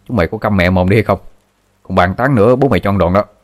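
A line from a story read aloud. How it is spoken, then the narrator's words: Harsh angry shout. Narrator (Vietnamese): Thằng Minh gằn giọng quát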